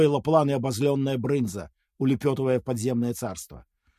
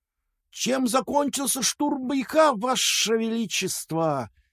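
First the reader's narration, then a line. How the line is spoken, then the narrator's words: Fawning hiss. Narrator (Russian): заискивающе прошипел Каракур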